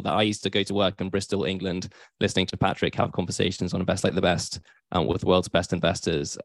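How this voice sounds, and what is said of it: British accent. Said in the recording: “as you can probably tell, I'm based in the UK with my accent”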